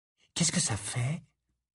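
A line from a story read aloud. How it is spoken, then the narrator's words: Murmuring. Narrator (French): murmura Hermione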